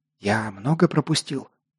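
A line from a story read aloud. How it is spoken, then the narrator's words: Whispered question. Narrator (Russian): шепотом спросил я Локка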